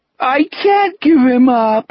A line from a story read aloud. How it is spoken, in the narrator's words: Richard moaned in the weepy, bewildered voice of a 5-year-old